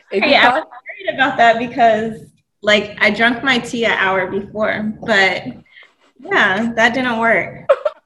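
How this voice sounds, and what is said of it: Strained, fading hoarse voice. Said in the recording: “I'm losing my voice already.”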